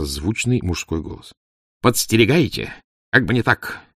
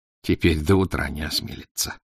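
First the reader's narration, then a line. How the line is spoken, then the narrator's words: Snorting. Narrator (Russian): хмыкнул надворный советник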